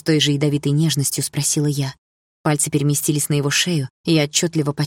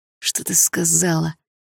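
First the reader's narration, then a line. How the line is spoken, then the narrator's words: Strained, dazed. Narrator (Russian): выдавил Бочкарёв, словно загипнотизированный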